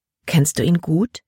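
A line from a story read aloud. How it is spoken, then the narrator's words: Plain. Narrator (German): fragte Libby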